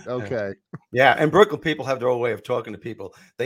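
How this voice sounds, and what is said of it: Brooklyn New York accent. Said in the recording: “Brooklyn, New York. You, you could tell by the accent”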